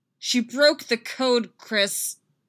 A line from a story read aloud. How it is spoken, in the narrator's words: Laura yells, furious and desperate